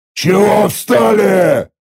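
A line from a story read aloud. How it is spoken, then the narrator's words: Angry roar. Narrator (Russian): разгневанно взревел я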